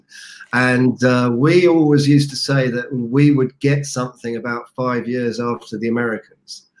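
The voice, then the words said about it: British English accent. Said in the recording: “I happen to be from the UK, as you will know from my accent.”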